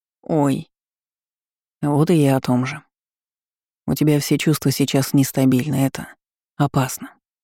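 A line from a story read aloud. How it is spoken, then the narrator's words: Soft, carefully chosen words. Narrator (Russian): мягко заметил Эрик, похоже, очень тщательно подбирая слова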